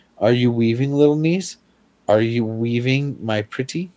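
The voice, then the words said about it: Sweet, sugary character voice. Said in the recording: “in her sweetest voice”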